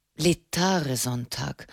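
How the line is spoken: Thoughtful murmur. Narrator (German): murmelte er nachdenklich

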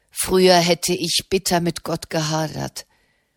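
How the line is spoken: Plain. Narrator (German): sagte Mona Lapa

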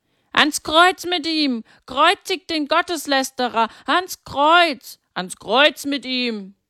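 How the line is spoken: Crowd shouting. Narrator (German): Die Feinde Jesu hörten nicht auf, das zu schreien, und immer mehr ließen sich von ihnen anstecken und schrien mit

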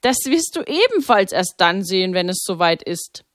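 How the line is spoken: Laughing priest. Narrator (German): lachte Pater Maximilian

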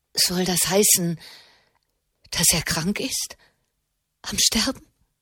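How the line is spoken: Trembling anxious question. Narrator (German): fragte Alessia mit zitternder Stimme

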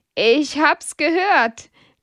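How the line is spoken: Laughing. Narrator (German): lacht Hedwig

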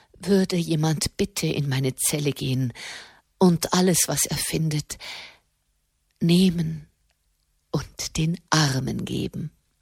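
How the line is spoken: Broken voice. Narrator (German): sagte mit gebrochener Stimme

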